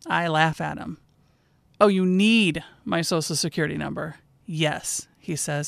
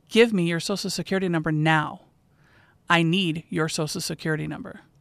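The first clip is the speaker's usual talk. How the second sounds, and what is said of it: Stern, commanding voice. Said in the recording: “in a very stern voice,”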